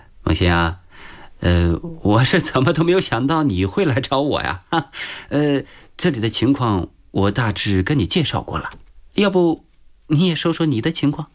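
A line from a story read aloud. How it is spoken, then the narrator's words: Smiling. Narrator (Chinese): 吴仁杰笑着对许梦欣说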